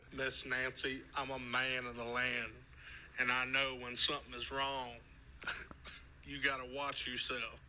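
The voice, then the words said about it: Impression of Crazy Ralph. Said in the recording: “doing some of Ralph's sayings ... That's a pretty good impression.”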